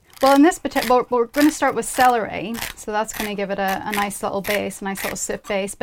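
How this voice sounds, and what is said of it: Northern Irish accent. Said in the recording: “It's my Northern Irish accent.”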